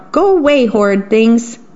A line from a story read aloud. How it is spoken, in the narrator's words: he would shout